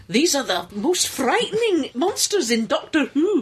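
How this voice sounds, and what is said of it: Weak put-on Scottish accent, like Scotty. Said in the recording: “With a much, much better Scottish accent than that. ... Sounding a lot less like Scotty.”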